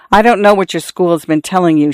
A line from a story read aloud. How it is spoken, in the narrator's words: she said, sighing